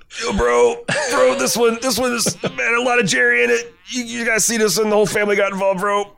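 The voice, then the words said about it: Stoner college bro voice. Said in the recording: “a college co-ed trying to tell you about the episode in between holding bong hits ... you're supposed to read them in that accent”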